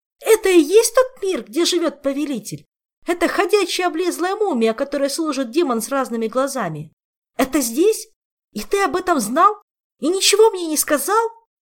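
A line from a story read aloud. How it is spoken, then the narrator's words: Shouting with cracking voice. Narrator (Russian): срывающимся голосом прокричал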